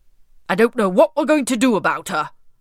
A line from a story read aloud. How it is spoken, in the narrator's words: grumbled King Stormbelly